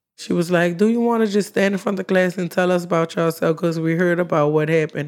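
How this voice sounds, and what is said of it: New Orleans accent. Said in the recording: “People thought I talked funny because of my accent.”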